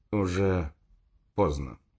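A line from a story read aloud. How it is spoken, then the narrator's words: Sad. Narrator (Russian): грустно сказал Дзержин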